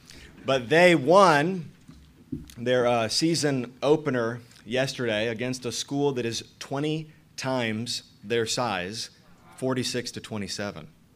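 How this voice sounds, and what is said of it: Voice sounds funny, unusual. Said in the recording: “that is why my voice sounds funny”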